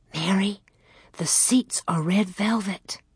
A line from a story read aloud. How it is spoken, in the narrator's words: She whispered